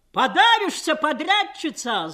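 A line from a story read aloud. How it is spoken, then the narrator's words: Spirited shout from crowd. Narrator (Russian): задорно крикнул кто-то из толпы резалок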